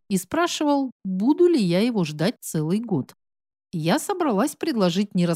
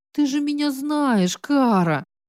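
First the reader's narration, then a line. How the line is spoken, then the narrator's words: Whimpering. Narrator (Russian): проскулила я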